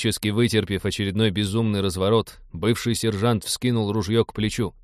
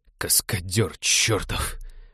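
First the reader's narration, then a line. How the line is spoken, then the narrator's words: Groaning. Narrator (Russian): простонал Винни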